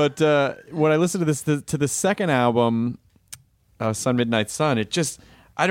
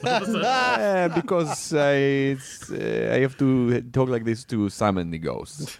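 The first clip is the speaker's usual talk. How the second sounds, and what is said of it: Put-on foreign accent, shifting. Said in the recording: “Why do you have that accent? ... did you write it in the accent? ... Your accent's changing right now”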